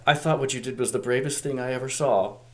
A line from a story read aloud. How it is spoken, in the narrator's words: RC says gently to Hot Rod